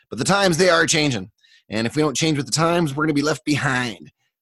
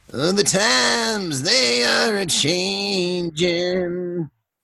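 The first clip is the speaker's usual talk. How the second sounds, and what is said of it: Lame impression of a singer's voice. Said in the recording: “my lame Bob Dylan impression”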